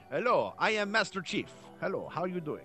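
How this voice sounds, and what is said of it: Put-on Spanish accent. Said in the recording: “if they all have Spanish accents”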